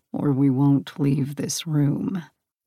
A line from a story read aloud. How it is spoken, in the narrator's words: Hades warned in a low growl